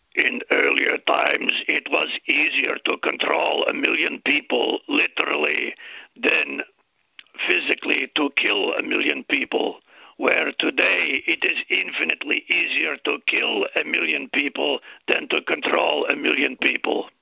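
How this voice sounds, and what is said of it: Strained imitation of another person's voice. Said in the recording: “Let's see if I can do his voice. I'll rip my voice up doing it here.”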